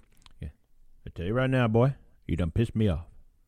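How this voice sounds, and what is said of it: Imitated southern US accent. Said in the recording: “Skinny guy from down south ... He had that southern accent.”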